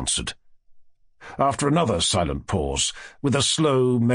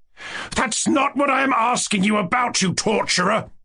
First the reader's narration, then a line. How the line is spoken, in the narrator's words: I shouted, turning crimson with anger